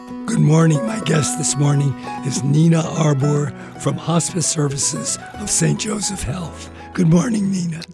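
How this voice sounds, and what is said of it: Hoarse, strained voice. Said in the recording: “Pardon my laryngitis.”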